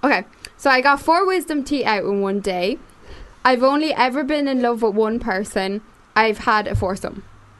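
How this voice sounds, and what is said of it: Irish accent. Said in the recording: “I love the Irish. ... understand their accent.”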